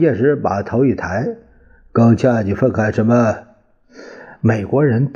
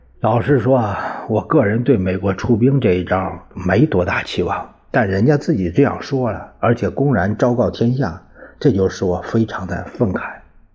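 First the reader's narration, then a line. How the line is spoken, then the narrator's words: Sighing. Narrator (Chinese): 陈仪叹了口气说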